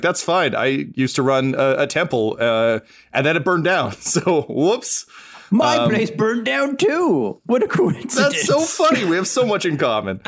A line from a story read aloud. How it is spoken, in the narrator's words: She laughs and she's like